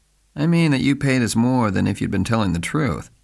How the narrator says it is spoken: he explained blandly

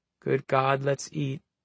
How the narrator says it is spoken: Garish murmured

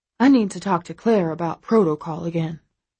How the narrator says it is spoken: she says, her tone weary

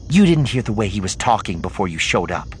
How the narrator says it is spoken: she said

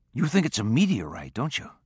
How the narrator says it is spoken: Tom said softly

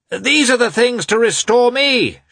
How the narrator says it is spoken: shouted Petritsky on seeing the newcomers

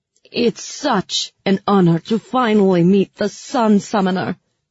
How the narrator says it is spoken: she said loudly

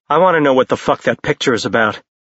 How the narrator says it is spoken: Jace said in a furious tone

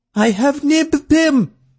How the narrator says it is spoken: someone shouted

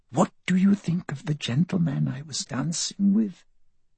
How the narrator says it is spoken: whispering

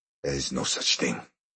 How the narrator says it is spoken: Branda muttered

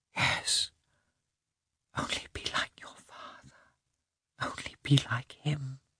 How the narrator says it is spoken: she whispered

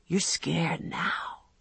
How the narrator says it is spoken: he said in his whispery voice

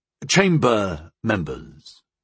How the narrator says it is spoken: Goal spoke in Sunjan with a slight accent

